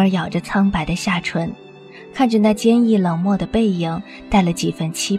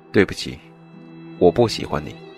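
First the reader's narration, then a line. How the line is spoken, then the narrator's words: Soft low apologetic voice. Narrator (Chinese): 连一向冰冷的声音也柔和了几分，带着微微的歉意，低声道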